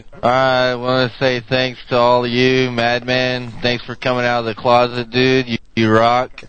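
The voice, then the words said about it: Imitates another person's voice. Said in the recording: “give us your best Milkman impersonation”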